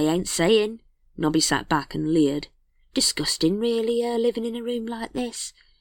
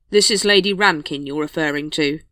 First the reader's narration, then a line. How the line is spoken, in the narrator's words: said Vimes coldly